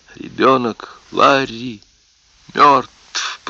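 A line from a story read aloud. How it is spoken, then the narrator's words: Whispered. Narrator (Russian): прошептала она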